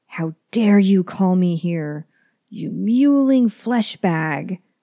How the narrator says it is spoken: roar

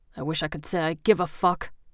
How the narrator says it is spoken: Colt growled

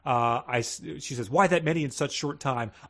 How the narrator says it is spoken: I snapped unwillingly

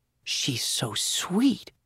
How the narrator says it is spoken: she whispered

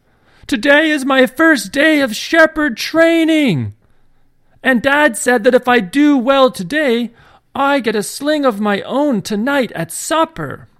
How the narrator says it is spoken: had to yell out

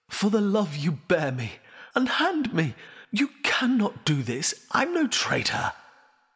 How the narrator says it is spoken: the prisoner said desperately

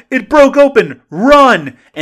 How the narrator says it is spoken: he's going to yell

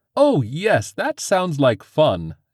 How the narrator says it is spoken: exclaimed Val

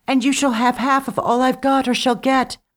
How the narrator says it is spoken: she cried as she floated away

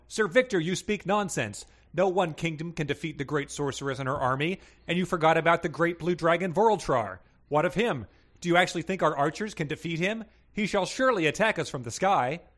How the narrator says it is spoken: The knight Sir Horatio yelled

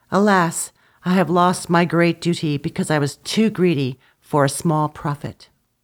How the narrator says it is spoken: the older brother stamped on the ground and said with a sigh

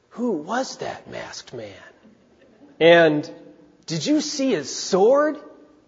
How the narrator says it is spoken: people whisper to one another

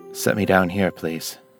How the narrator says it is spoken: Janus murmured

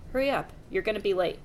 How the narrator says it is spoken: Mom nodded firmly and didn't say anything else except

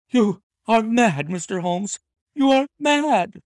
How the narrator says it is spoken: she cried at last

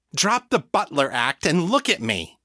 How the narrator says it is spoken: snapped

